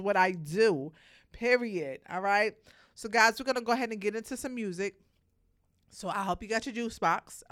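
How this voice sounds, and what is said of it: Voice of someone with a cold. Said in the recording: “I'm a little under weather... I have a little cold and I'm not feeling 100%”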